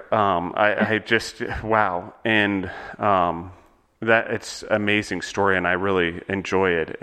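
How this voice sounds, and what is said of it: Choked-up, emotional voice. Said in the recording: “I'm getting choked up ... I got to pull myself together here”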